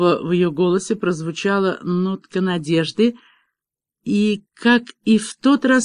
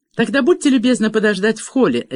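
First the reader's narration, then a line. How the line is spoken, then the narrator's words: Sharp. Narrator (Russian): резко проговорила Меган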